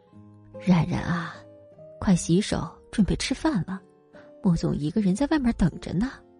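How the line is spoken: Quiet question. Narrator (Chinese): 王妈小声的靠近宋冉问

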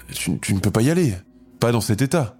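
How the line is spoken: Trembling voice. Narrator (French): dit-elle d'une voix tremblante

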